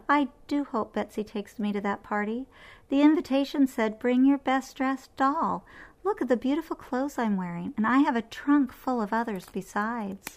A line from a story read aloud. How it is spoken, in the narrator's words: sighed Belinda